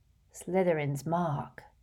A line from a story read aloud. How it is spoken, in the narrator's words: said quietly